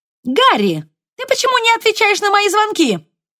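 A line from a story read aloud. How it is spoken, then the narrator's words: Shrill nasal Irish-accented shout. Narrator (Russian): крикнула пронзительно гнусавым голосом, в котором слышался сильный ирландский акцент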